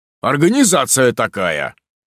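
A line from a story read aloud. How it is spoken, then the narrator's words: Deep bass voice. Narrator (Russian): пробасил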